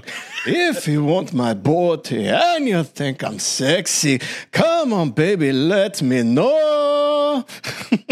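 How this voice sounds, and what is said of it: Poor put-on Scottish accent, singing. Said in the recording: “one of the worst versions, though, that I've ever heard ... It's the best I can do for a Scottish accent.”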